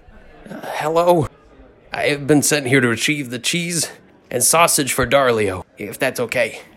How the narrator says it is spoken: In a squeaking voice, hollered up

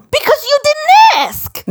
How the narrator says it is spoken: Max yelled back, panicked

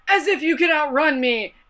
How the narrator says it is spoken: yells at nothing

